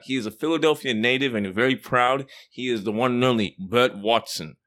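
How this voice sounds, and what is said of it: Australian accent. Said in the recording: “I like that accent, baby. ... it's from Australia.”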